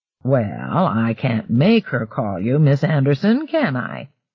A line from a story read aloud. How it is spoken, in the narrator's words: Berenger returned with infuriating, drawly slowness